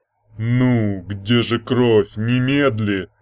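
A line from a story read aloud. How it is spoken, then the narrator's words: Hissing. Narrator (Russian): прошипел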